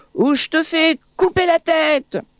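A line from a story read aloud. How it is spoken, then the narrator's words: Sultan yells. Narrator (French): hurle le sultan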